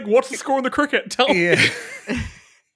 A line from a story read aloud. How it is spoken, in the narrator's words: he's yelling